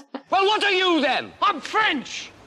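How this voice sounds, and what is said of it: Outrageous put-on French accent. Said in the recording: “He's French ... this outrageous accent”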